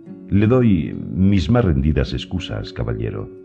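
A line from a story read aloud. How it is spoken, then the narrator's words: Plain. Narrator (Spanish): dijo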